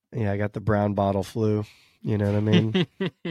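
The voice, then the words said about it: Deep, smooth late-night DJ voice. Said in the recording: “feeling a little bit under the weather... Apart from the voice?... I got my midnight DJ voice going... Mr. Smooth... Smooth operator”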